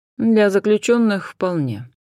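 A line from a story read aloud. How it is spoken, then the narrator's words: Dry agreement. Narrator (Russian): сухо согласился Хосе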